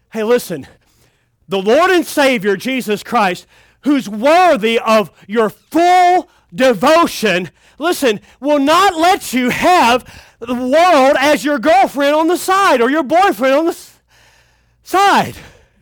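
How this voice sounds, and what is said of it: Breathless, out-of-breath preaching. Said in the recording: “Sorry, I'm out of breath.”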